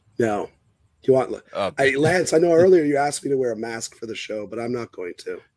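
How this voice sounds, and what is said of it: Hoarse, lost voice. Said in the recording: “I'm hacking up. Can you guys even hear me? I lost my voice earlier today.”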